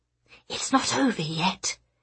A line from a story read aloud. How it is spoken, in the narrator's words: she hissed over her shoulder